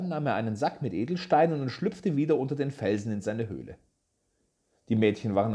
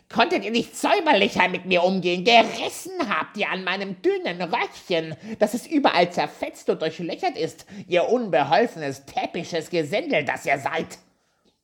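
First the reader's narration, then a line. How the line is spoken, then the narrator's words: Shrieking, screeching dwarf. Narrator (German): Als der Zwerg sich von dem ersten Schrecken erholt hatte, schrie er mit seiner kreischenden Stimme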